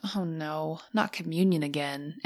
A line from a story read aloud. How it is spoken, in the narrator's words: When the kids begin to sigh